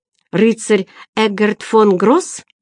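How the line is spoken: Exclaimed. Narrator (Russian): воскликнул он

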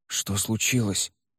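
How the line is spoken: Whispered question. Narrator (Russian): шепотом спросил Шимин

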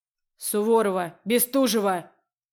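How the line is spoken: Loud barked shout. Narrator (Russian): Рявкнул преподаватель на всю аудиторию

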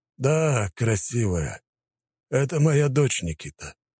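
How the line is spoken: Muffled, hollow voice. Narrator (Russian): глухо говорит Назаров

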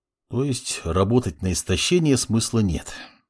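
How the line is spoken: Sighing. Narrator (Russian): вздохнул маг

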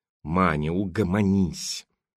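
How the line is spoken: Through gritted teeth. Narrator (Russian): Сквозь зубы процедила Митрофанова

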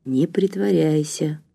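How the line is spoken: Whisper. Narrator (Russian): шепотом сказал он

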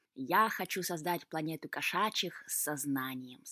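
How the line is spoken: Plain. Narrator (Russian): сказал кот

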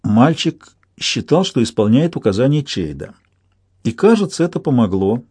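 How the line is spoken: Gentle. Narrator (Russian): мягко сказала Кетрикин

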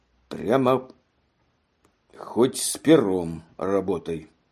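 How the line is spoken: Sudden, resolute. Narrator (Russian): сказал вдруг служивый решительным тоном

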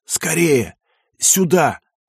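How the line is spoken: Hoarse wheeze. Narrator (Russian): прохрипел

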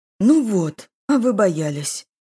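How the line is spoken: Exclamation. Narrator (Russian): воскликнул Санат

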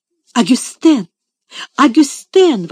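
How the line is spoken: Exclamation. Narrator (Russian): воскликнула мисс Офелия

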